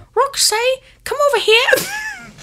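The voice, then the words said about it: Dobby-like character voice. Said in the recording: “unless I make it sound like Dobby is calling her name”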